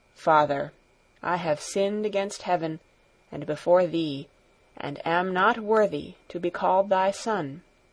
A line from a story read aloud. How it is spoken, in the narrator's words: with bowed head said in a low voice